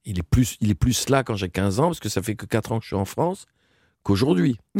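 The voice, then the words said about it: Speaks French with a foreign accent. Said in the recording (French): “j'ai toujours mon accent, parce que mon accent, il est comme moi, il est là, quoi.”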